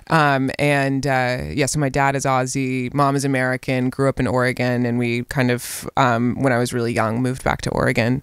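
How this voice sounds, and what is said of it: Australian accent with American influence. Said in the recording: “you can tell, obviously, by your accent that you've been in America”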